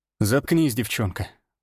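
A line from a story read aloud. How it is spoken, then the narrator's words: Tired. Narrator (Russian): устало сказал я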